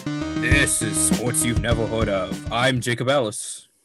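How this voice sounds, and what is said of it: Deep radio announcer voice. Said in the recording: “both of us went through extreme puberty ... I'm just doing my radio voice”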